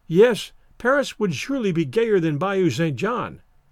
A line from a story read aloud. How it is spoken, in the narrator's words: she answered